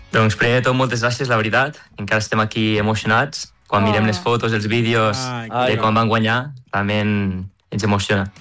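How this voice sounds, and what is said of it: Western Catalan regional accent. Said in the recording (Catalan): “Oh, i quin accent. ... De Mollerussa. ... no és tan bo com el de l'Urgell, però fa el que pot.”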